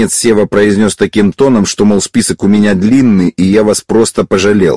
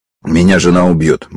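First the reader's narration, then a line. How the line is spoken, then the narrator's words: Gloomy. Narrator (Russian): мрачно сказал Евсеев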